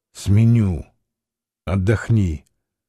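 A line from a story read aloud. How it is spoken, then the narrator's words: Whispered. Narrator (Russian): шепотом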